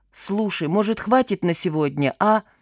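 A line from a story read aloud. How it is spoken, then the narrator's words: Irritated question. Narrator (Russian): раздраженно спросил ее эльф Гена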